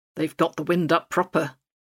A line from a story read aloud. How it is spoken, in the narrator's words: I muttered